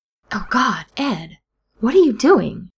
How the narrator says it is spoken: Steed exclaims

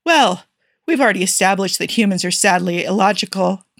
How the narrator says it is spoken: Jim chuckled

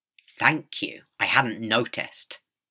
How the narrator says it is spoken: the Doctor snapped sarcastically

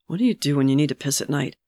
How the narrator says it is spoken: Geralt muttered

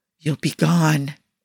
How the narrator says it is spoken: he whispered almost imperceptibly

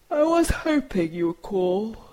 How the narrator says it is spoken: Benny growls around his yawn

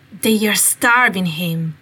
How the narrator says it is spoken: Remus growled

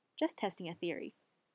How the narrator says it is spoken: Sam says

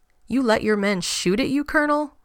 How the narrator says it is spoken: John chuckled

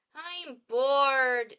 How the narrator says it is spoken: Jay whines

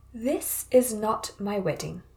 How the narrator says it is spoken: Jin Guangyao, very calmly and decisively

